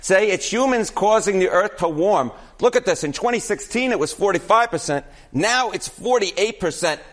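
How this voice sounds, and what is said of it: Exaggerated New York accent. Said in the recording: “this is an all New York accent hit ... You're leaning into that. ... Now I really am leaning into the ... New York accent.”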